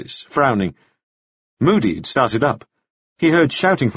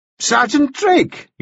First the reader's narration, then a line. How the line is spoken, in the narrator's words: exclaimed the justice